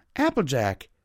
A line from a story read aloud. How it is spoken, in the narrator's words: she exclaimed